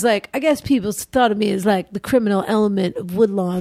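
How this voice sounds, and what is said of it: Impression of Jay. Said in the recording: “my Jay impersonation”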